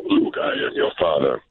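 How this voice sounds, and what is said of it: Deep Darth Vader impression. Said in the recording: “He sounds like Darth Vader.”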